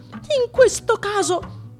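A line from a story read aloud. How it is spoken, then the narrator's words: Shouted. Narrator (Italian): gridò finalmente Pinocchio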